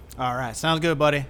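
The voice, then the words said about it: Put-on hick accent. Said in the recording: “I was trying to do a different accent, and then like the hick accent came out”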